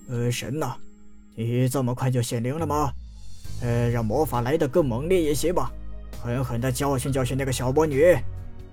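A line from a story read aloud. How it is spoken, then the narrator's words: Murmuring. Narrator (Chinese): 而后忍不住喃喃道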